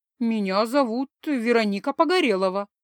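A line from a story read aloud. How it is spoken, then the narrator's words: Embarrassed, forced out. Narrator (Russian): смущенно выдавила я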